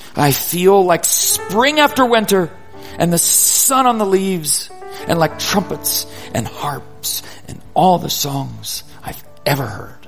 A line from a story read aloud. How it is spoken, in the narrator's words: Sam shouts